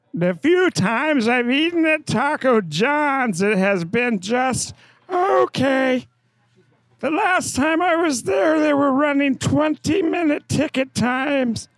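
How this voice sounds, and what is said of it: Funny put-on voice. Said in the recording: “Bad Reviews Read in a Funny Voice”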